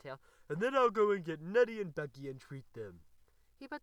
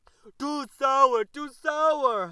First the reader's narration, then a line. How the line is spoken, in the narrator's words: howled Mr